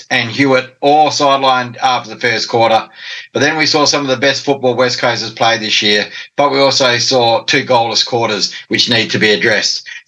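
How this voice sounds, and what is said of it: Husky, hoarse voice. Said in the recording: “battling tonsillitis ... sorry if my throat is a bit husky or hoarse or whatever it is, sounds weird”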